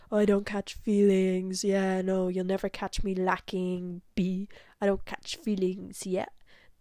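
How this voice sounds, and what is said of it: Imitates a man acting tough. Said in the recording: “he was acting very like hard ... that's my impression of him”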